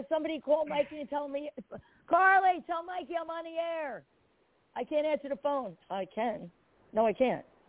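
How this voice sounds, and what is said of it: Hoarse, nearly lost voice. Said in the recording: “I have no voice. I mean, my voice is fucked ... because I have laryngitis.”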